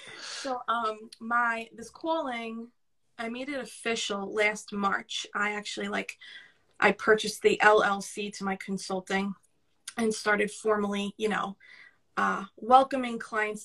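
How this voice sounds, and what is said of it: New York Brooklyn accent. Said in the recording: “I really hear my New York accent right now compared to yours... I know that I sound like a sewer rat from Brooklyn.”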